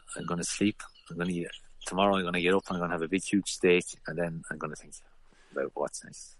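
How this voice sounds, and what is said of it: Irish accent with French influence. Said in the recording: “your accent. It's a lovely mix of your 12 years in France and Kells in County Meath.”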